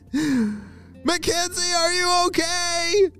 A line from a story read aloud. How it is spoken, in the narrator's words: Micah shouted